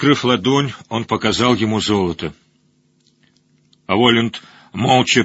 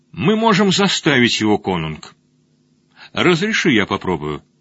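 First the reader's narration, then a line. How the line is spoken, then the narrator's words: Old man, plain. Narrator (Russian): Старый Хильдинг сказал ему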